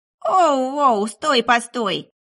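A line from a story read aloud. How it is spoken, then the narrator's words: Little imp howling. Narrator (Russian): Взвыл не черт, а скорее маленький чертенок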